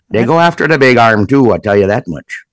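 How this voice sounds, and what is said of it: Put-on Minnesota accent. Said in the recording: “why are you speaking in this accent? ... Well, it's Minnesota muskie.”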